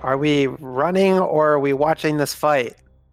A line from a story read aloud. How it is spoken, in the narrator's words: Raylan would just be shouting the whole time